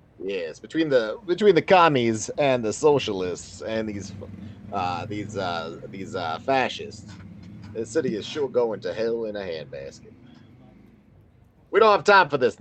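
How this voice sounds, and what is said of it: Put-on character accent. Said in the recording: “accent reminds me of that guy from Django who was, like... The one who they call, like, Big Daddy”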